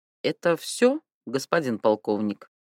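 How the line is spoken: Almost calm, regaining confidence. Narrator (Russian): утраченная уверенность возвращалась к нему, и в конце концов он почти спокойно спросил Тамбовцева

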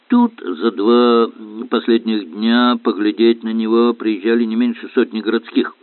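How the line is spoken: Grumbled. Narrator (Russian): проворчал констебль Ладен

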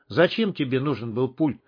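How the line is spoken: Calm question. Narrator (Russian): спокойно спросил Хук

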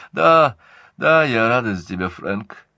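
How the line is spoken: Sleepy. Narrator (Russian): сонно сказала Эллен

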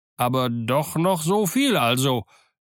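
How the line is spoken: Somewhat joyful exclamation. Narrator (German): rief Dick mit einer gewissen Freude

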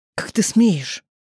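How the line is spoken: Hissing. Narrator (Russian): прошипел

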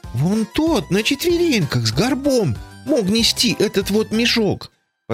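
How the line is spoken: Timid prompt. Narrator (Russian): подсказала Тося робко

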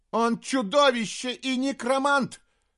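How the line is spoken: Princess shouting. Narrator (Russian): закричала принцесса

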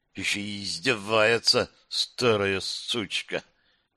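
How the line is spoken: Nervous hiss through teeth. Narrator (Russian): Алиса нервно втянула воздух прошипела сквозь зубы

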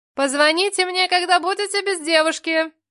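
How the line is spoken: Shouted, then ringing laughter, woman. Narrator (Russian): крикнула в спину рыжуля и заливисто расхохоталась

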